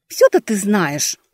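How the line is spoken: Regretful grumbling. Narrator (Russian): пробурчала я, уже жалея, что ввязалась

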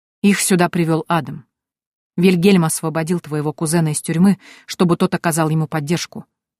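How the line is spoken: Plain. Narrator (Russian): ответил Валахан

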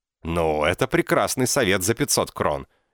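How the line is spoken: Barked. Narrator (Russian): рявкнул он

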